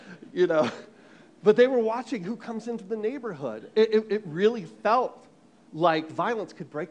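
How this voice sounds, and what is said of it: Usual voice. Nothing is said of it.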